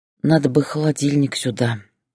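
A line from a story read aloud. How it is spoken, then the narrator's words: Sigh. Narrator (Russian): вздохнула она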